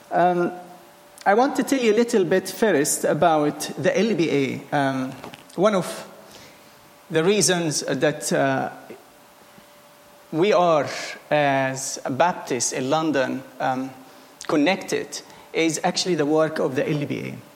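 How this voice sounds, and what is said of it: Egyptian-accented English. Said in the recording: “what type of accent is this ... I am originally Egyptian”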